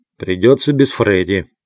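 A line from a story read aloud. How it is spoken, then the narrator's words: Gloomy. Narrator (Russian): мрачно ответил Сонни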